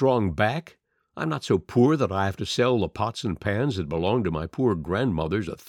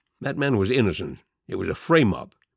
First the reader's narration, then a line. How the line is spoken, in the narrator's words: Blake murmured